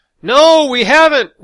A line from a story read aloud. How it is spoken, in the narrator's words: we yelled back